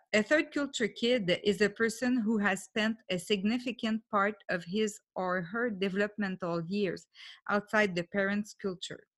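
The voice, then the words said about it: English with a French accent. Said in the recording (French): “l'accent. Je parle anglais, mais j'ai toujours mon accent.”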